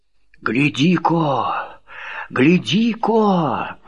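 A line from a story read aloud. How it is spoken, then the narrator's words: Whispered call. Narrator (Russian): Шепотом позвала она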